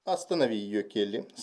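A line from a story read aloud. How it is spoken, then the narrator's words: Calm. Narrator (Russian): спокойно сказал мистер Марло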